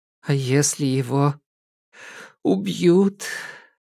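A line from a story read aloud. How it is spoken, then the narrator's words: Sobbing. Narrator (Russian): Она всхлипнула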